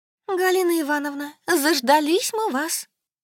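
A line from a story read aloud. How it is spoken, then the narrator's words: Honeyed chirping. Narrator (Russian): щебетала Екатерина Петровна просто медовым голосом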